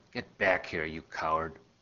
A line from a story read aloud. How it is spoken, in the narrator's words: my mother whispering loudly on the phone